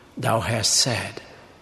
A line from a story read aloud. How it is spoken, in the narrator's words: he replied calmly